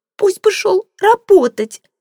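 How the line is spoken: Shrill shriek. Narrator (Russian): взвизгнула она

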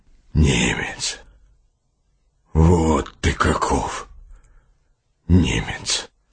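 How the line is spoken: Hoarse rasp. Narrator (Russian): прохрипел капитан

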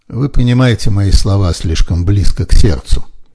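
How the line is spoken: Calm reply. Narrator (Russian): спокойно отвечал Фриски

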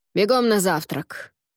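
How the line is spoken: Barked order. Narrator (Russian): гаркнула Варга

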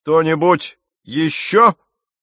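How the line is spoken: Shouted. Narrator (Russian): крикнул мистер Кристиан

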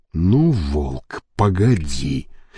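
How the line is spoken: Growled. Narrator (Russian): прорычал генсек

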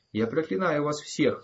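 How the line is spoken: Shrieking. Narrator (Russian): взвизгнула она

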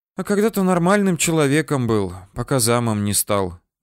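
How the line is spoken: Sighing. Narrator (Russian): вздохнула она

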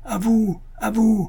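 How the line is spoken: Shout. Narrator (French): cria-t-il

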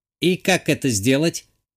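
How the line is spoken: Snide computer assistant. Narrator (Russian): ехидно уточнил компьютерный помощник

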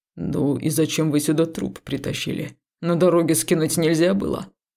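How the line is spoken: Grumbling. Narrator (Russian): услышала я ворчание Судоу

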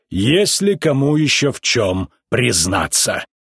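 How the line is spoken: Terrible menacing voice. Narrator (Russian): Наполеон страшным голосом спросил животных

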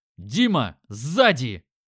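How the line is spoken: Shouting. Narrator (Russian): закричал

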